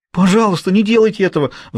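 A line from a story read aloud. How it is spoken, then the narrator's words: Pleading. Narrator (Russian): взмолился Хьюго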